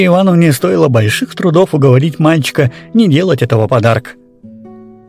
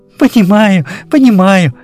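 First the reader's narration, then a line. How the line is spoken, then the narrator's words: Laughing. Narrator (Russian): смеялась Вера Ивановна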